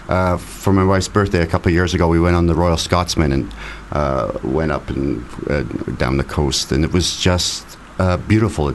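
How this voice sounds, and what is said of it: Very thick accent. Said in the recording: “You still got a very thick accent. So that's obviously just stuck.”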